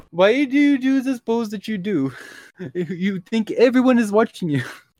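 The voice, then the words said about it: Failed attempt at a character's accent. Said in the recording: “I cannot do accents.”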